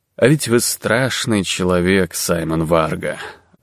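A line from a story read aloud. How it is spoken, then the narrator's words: Suddenly tired voice. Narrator (Russian): вдруг сказал волк неожиданно уставшим голосом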